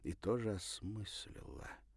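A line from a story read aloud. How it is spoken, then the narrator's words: Very quiet. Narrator (Russian): добавила совсем тихо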